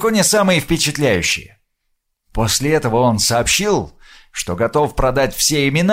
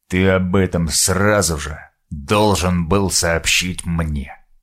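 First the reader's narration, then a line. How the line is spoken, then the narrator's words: Dead, cold voice. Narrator (Russian): мертвым и холодным голосом произнес Сал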